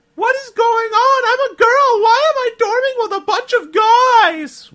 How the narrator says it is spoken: Rochelle Heeger screamed in agony

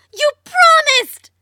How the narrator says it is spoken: Marlene yelled back

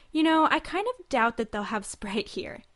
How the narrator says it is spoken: Alicia laughed and said

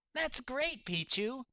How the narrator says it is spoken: Leafeon giggled

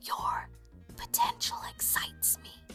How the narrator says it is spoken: Russ got up close to whisper in her ear

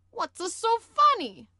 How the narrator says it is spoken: Wario shrieked

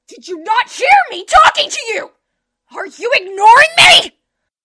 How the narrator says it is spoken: screamed so loudly my eardrums felt like they were going to burst

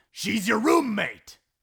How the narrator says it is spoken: Sean shouted

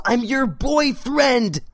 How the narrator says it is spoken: Sam yelled

